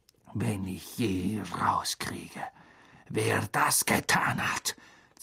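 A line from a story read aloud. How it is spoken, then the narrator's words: Hissed. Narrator (German): zischte Snape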